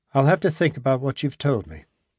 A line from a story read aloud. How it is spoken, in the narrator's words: he said, his voice still almost emotionless